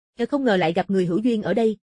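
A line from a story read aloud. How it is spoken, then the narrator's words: Loud laughter. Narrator (Vietnamese): Cực Nhạc Tăng cười to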